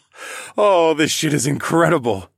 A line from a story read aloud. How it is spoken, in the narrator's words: chuckled